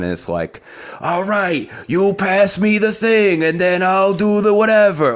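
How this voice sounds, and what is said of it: New York accent. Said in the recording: “fantastic New York accent.”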